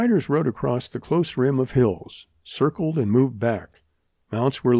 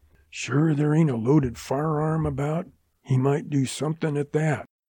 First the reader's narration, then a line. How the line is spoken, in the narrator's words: Ed Jensen whispered in Lou's ear